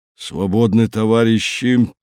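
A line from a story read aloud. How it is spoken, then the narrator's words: Hoarse wheeze. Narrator (Russian): Краюхин просипел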